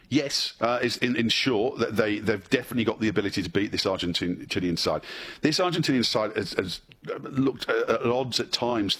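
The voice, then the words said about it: Speaks with a noticeable accent. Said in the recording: “I can tip an accent.”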